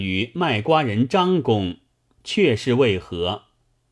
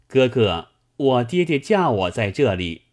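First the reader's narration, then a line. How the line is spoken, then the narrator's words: Girl calling. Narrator (Chinese): 文女叫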